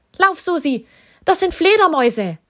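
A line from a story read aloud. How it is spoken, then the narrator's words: Called out. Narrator (German): rief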